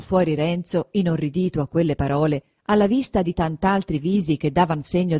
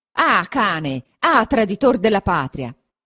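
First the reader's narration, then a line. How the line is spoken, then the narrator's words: Furious, frenzied shout. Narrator (Italian): gridò, con un viso da indemoniato, un di coloro che avevan potuto sentire tra il frastono quelle sante parole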